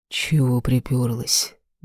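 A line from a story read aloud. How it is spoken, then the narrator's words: Curt mutter. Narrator (Russian): буркнул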